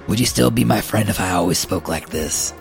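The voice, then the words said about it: Gravelly imitation of another person's voice. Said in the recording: “my voice is still poopy from doing my impression... My Tom Waits impression.”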